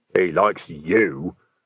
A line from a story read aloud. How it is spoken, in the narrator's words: said Nock bitterly